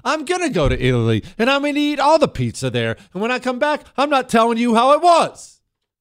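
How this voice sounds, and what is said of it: Yelling. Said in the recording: “I don't know why I'm yelling.”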